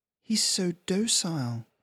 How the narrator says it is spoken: Joanna murmured

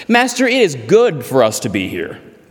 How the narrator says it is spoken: Peter said

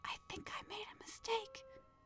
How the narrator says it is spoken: Pyg whispered

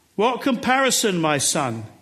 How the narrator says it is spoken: he called out

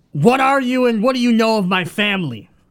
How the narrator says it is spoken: yell out

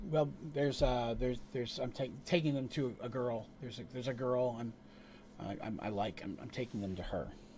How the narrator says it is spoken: he just stammers

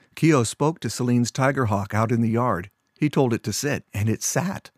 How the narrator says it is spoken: Keo's mother burst out with a short laugh and said

